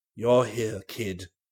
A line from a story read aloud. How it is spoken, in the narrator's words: said old Danby huskily